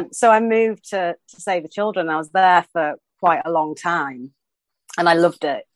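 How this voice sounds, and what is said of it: Yorkshire English accent. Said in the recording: “as you can probably tell by my voice, I am Yorkshire through and through”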